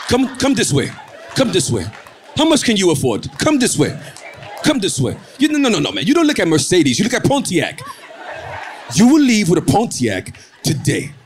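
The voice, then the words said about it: Imitated African accent, not very good. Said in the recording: “I know my accent's not that good. Please, Africans, don't get mad.”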